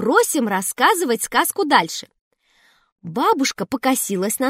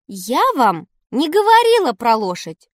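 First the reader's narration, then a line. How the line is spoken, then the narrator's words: Perfectly calm statement. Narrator (Russian): Бабушка совершенно спокойно нам заявляет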